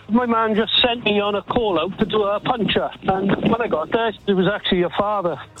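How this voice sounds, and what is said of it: Welsh Swansea accent. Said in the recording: “originally from Swansea ... There's a tiny giveaway with your accent there. Just a tiny giveaway.”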